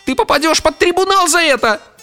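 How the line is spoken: Hysterical shriek. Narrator (Russian): взвизгнул Арнольд истерично

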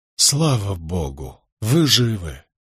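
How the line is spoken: Breathless relief. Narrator (Russian): выдохнул я

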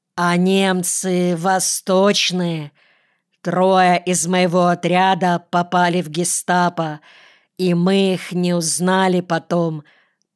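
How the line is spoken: Deep bass voice. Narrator (Russian): пробасил Лисоцкий

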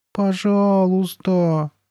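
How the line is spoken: Drawn-out plea. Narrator (Russian): протянула Карли Бет

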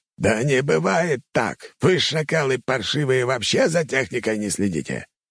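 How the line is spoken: Frantic, distorted yelling. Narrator (Russian): Командующий армией нападения орал не своим голосом на подчиненных

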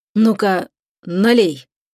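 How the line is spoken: Unsteady commanding voice. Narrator (Russian): неверным голосом приказал он

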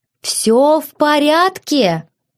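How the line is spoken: Shouted. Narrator (Russian): закричала мужу

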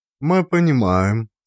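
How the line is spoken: Calm. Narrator (Russian): спокойно сказала она

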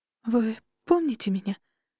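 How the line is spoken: Trembling question. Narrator (Russian): спросила она дрожащим голосом

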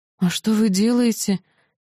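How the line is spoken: Sleep-hoarse puzzled question. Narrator (Russian): хриплым ото сна голосом недоуменно спросила я

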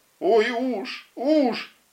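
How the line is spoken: Girl's shrill squeal. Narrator (Russian): только Оля все еще визжала

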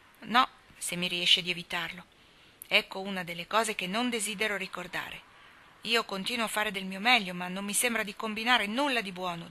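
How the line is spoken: Discouraged. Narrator (Italian): disse Dan in tono scoraggiato

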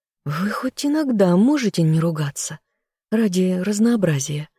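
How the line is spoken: Hoarse voice. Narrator (Russian): поморщившись от собственного хриплого голоса, произнесла я

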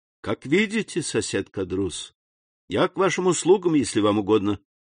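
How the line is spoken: Polite, barely hiding coldness. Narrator (Russian): отвечал Дантес, с трудом скрывая холодность под любезным тоном

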